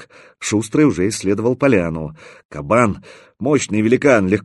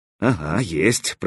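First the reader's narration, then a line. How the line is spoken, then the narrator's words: Muttering. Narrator (Russian): пробормотал наконец кастет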